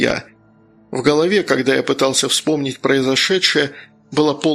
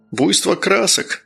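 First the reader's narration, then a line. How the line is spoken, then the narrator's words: Old man's snort. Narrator (Russian): хмыкнул старик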